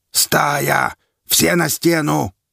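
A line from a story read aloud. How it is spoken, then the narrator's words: Loud bark. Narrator (Russian): гаркнул Квас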